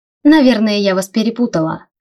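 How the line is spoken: Scoffing. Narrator (Russian): хмыкнула я

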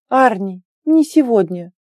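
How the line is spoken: Pleading moan. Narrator (Russian): простонала умоляющая княжна

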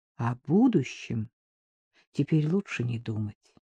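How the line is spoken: Quiet, smiling, manager. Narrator (Russian): тихо улыбнулся начальник производства

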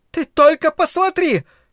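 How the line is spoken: Shouting almost triumphantly. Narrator (Russian): чуть ли не с триумфом закричала Карла

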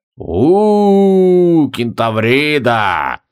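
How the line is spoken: Pompous drawl. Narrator (Russian): С важным лицом протянул поручик

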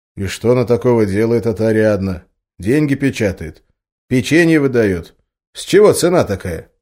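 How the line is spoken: Plain. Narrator (Russian): спросил Иван

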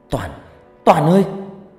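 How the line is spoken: Frozen, frantic cry. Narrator (Vietnamese): Loan cứng đơ người, kêu lên thất thanh

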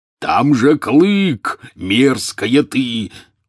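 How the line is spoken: Roared. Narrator (Russian): взревел Хагрид

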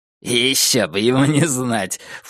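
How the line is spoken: Scoffing snort. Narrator (Russian): фыркнул мистер Сёдерблад

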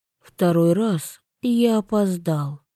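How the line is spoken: Hollow, muffled voice. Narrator (Russian): глухим голосом сказал Йон

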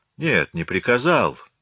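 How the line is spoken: Gentle correction. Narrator (Russian): мягко поправил

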